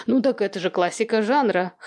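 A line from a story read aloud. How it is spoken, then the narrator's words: Wry snort. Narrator (Russian): хмыкнул Кирьянов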